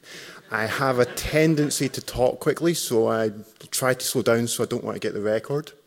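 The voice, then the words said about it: Scottish accent. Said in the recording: “I'm from Scotland in the UK, so hopefully you can understand my accent.”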